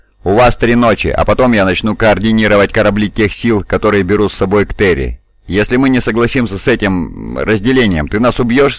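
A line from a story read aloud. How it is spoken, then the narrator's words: Plain. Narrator (Russian): спросил Афион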